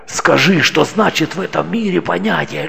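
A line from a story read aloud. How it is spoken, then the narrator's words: Shouting, pleading to God. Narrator (Russian): Кричал Анон, взывая к Богу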